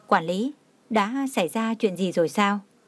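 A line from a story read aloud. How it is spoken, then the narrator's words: Cold, curious question. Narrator (Vietnamese): sắc mặt liền lạnh lùng, tò mò hỏi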